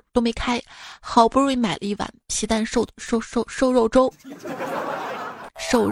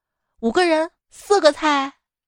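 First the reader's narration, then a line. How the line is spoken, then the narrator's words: Loud. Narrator (Chinese): 李哥大声的说道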